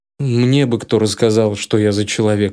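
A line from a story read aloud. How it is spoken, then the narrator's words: Snorting. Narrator (Russian): фыркнул я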